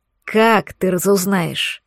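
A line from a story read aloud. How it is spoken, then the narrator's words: Impatient growl. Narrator (Russian): зарычал-таки Лисовский, теряя терпение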